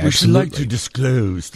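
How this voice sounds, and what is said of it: Dame Edna impression. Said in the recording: “The Dame Edna impersonation is running off, rubbing off on you.”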